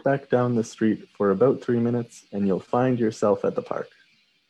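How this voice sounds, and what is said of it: Canadian accent on 'about'. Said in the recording (Chinese): “有一点点那个 about 的有一个那个声音哈...加拿大人会讲 about about”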